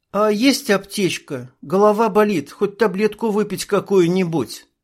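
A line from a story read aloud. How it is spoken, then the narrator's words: Suffering voice. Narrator (Russian): Страдальческим голосом спросила Ника у Аиды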